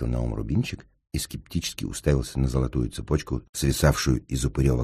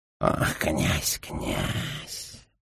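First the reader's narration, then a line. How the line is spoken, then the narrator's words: Ghoul muttering. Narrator (Russian): пробормотал упырь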